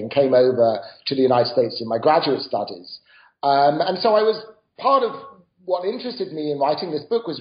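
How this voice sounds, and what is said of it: British accent. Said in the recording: “As my accent suggests, I didn't grow up in the United States. I grew up in Britain.”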